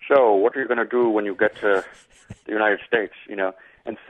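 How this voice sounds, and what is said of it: Usual voice. Nothing is said of it.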